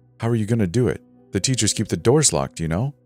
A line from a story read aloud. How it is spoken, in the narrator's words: said